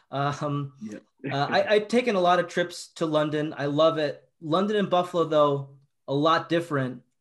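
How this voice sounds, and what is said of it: Buffalo, New York accent. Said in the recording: “I'm from Buffalo, if you can't tell by my accent”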